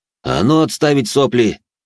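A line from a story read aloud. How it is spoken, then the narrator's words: Barked. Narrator (Russian): рявкнул я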